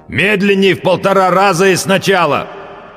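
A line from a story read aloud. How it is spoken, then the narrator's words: Loud growl. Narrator (Russian): прорычал, как любой человек, забывший, что он в наушниках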